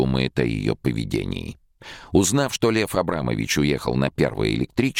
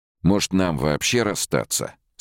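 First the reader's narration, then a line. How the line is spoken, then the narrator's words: Icy question. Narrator (Russian): спросил он ледяным тоном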